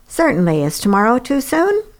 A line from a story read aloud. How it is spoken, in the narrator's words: He laughed in a way that had always endeared him to me